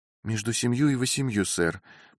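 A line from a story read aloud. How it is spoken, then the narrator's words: Soft, meek, joyful, young-sounding. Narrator (Russian): повторила миссис Джазеф своим мягким и кротким голосом, в котором теперь слышались нотки радости и отчего он казался совсем молодым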